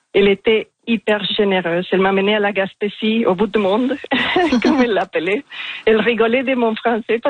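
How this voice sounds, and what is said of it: Strong foreign accent in French. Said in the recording (French): “j'ai un accent assez marqué ... Il est magnifique cet accent”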